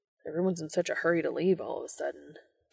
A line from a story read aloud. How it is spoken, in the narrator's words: Dean muttered